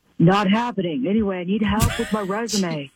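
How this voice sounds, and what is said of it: Imitates another person's voice. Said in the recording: “doing a great impression”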